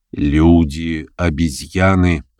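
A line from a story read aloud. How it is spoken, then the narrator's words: Plain. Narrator (Russian): ответил он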